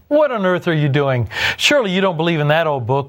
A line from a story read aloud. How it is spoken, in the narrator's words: one of them jeered